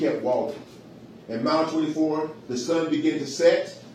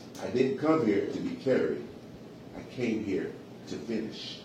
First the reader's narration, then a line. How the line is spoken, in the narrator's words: Samuel smiled gently and said